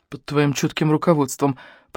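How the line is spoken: Grumbled aside. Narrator (Russian): проворчал Мика, так сказать, в сторону

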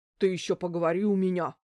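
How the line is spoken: Angry grumble. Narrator (Russian): зло проворчала Альбина Германовна

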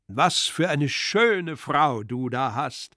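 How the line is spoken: Loud enough to overhear. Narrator (German): fuhr er fort, scheinbar allein an Pseldonimow gewandt, aber letztlich doch so laut, dass auch die junge Braut ihn hörte

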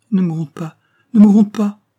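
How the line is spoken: Hurried, stifling a sob. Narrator (French): dit Florence avec précipitation, en étouffant un sanglot, comme un enfant qu'on réprimande

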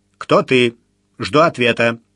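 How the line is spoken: Stern demand. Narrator (Russian): Митя поднес коробочку к губам и строго потребовал

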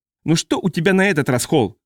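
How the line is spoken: Bark. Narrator (Russian): рявкнул Стетсон

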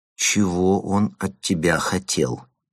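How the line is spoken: Quiet, repeating. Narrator (Russian): повторила она тихим голосом

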